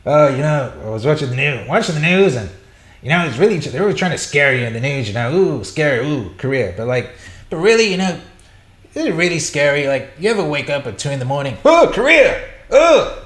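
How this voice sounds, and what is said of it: Imitates another person's voice. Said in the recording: “A terrible Norm impression.”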